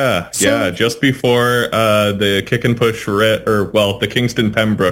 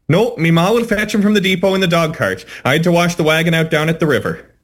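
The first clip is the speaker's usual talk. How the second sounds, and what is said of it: Passable put-on Irish accent. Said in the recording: “I do an Irish accent that is just passable”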